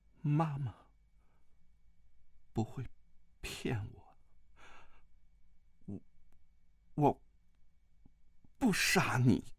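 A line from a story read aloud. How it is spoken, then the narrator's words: Resolute. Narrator (Chinese): 段誉一咬牙 说道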